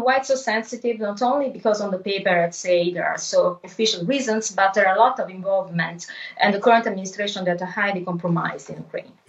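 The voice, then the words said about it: Strong Italian accent in English. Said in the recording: “You've got a wonderful Italian accent, and being Italian, I can understand every word you say. I fear that some ... who are listening might not be able to understand as much.”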